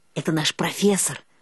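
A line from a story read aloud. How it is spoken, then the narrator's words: Whispered. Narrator (Russian): шепнула Эльга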